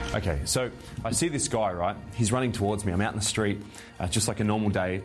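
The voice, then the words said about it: Australian accent. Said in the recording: “He's an Australian, so forgive the accent.”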